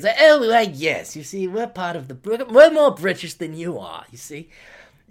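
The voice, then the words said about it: Imitates another person's voice. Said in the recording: “I can't do an Australian accent, so I'm just going to do a David Niven accent, which will sound nothing like Adam Pickett's.”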